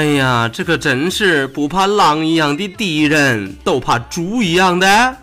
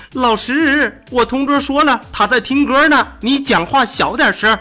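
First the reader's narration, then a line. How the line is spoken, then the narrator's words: Loud shout. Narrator (Chinese): 大喊一声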